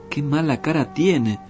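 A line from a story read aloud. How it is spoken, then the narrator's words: Plain. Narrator (Spanish): dijo el herrero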